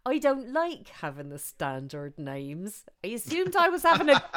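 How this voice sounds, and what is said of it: Put-on Plymouth accent. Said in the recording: “I should do it in a Plymouth accent.”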